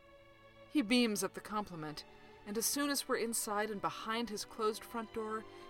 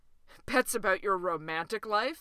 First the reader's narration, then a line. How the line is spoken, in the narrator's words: said Dewey with a laugh that was almost kind of mean